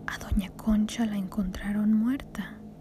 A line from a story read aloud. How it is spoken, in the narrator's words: her mother said softly